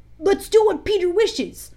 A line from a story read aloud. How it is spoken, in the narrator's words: cried the simple boys